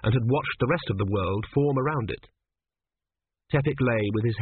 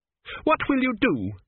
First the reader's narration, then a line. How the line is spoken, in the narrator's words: shouted Petracci